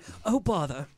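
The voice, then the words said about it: Winnie the Pooh impression. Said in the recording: “That was my Winnie the Pooh impression.”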